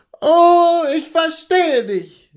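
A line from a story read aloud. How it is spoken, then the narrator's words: Calling out. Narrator (German): rief sie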